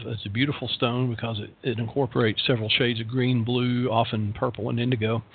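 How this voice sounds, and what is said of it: Warm Southern US accent. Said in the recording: “my southern accent is charming, warm, rich, and personable”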